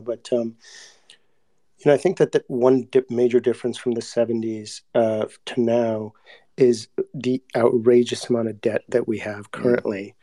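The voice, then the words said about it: Hoarse voice. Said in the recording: “I apologize for my hoarse voice right now”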